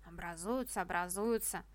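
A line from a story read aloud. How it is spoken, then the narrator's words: Grumbling. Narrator (Russian): ворчал утёклый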